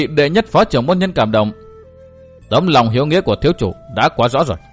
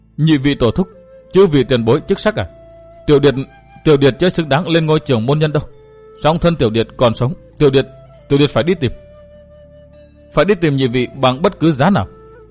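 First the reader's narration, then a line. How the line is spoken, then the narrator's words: Choked sobbing voice. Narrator (Vietnamese): Ngô Thành Nhân nức nở nghẹn ngào thốt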